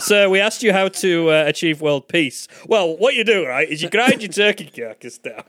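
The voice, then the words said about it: Imitation of co-host's voice. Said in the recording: “Is that my voice?... I do a better impression of you than you do.”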